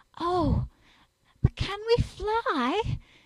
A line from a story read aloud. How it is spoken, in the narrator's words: Jane said, anxiously